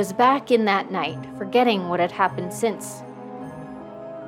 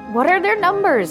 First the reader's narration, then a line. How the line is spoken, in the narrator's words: she cried